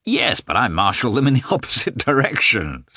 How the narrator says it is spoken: said Sviatsky, laughing

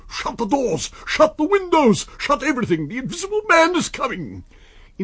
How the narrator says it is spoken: screams

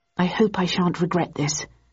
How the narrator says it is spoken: murmured Bowden

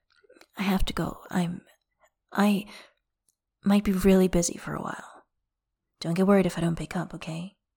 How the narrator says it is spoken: in a softening voice

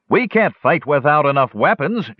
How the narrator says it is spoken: shouted someone else

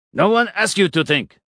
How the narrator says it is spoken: Vlad snapped

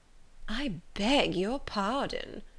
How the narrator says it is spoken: replied Miss Bingley, turning away with a sneer

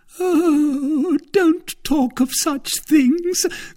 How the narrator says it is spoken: cried the wife, bursting into tears

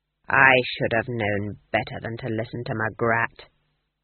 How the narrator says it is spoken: growled Nanny

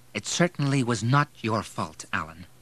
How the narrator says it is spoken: said firmly

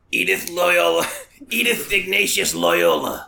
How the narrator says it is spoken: rasps the sinewy woman

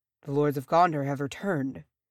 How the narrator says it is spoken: murmured to himself

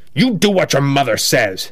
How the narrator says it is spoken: snaps the man

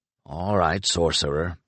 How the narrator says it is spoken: he muttered

